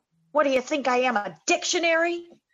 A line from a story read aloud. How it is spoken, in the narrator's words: He yells at Tommy